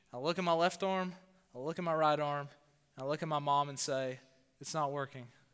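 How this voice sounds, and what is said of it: Southern US accent. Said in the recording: “my southern accent. I sound like a hick”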